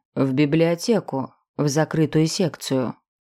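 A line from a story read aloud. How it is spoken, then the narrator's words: Calm. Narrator (Russian): спокойно ответил он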